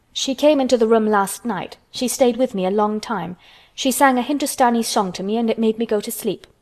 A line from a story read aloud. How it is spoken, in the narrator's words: said Colin